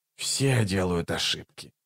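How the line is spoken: Muttering. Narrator (Russian): пробормотал Раллик

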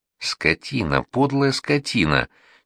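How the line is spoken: Hateful near-moan. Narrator (Russian): чуть не простонала Аглая, с ненавистью

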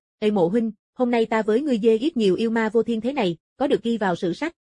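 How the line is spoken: Excited, laughing loudly. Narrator (Vietnamese): Phong Thu Ngô kích động, cười lớn

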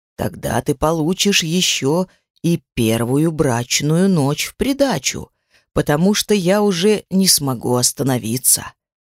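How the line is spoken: Whisper, suppressed smile. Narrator (Russian): прошептал он, сдерживая искорки улыбки в уголках губ

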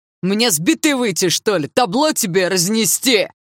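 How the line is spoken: Shouting. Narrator (Russian): Снова закричал парень

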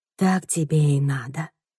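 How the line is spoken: Mumbling. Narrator (Russian): бормочет

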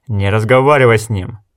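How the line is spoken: Barking. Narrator (Russian): рявкнул Гис

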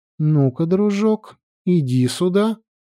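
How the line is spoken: Sweet voice. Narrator (Russian): сладким голосом произнесла Фьямма

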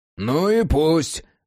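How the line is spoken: Barking. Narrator (Russian): рявкнул Джек

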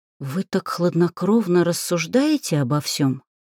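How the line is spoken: Whisper. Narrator (Russian): прошептала я

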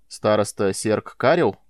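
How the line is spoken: Stern voice. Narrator (Russian): строго заговорил Майлз

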